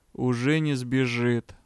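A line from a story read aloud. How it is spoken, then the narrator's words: Grim. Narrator (Russian): мрачно ответил магистр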